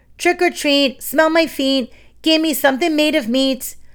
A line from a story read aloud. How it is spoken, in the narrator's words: Roach shouted